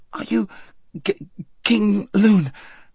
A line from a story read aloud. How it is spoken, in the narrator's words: gasped Shasta